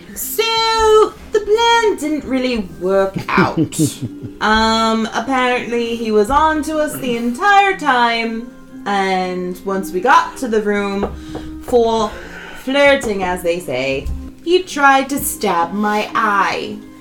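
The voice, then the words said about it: Put-on accent. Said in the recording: “Accent.”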